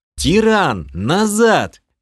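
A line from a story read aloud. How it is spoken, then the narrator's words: Shouting. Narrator (Russian): крикнул я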